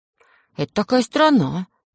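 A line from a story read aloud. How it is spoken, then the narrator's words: Uncertain voice. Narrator (Russian): говорю я неуверенным голосом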